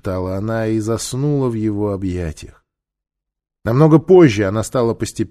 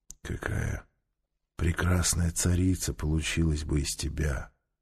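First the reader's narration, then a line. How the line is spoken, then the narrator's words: Quiet speech. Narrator (Russian): сказал он тихо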